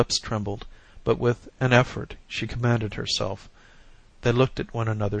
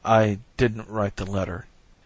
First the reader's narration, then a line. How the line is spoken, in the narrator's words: he repeated hoarsely